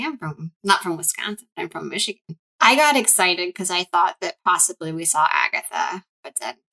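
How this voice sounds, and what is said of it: Usual voice. Nothing is said of it.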